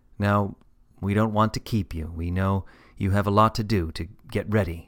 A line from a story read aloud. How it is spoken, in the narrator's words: said Daddy gently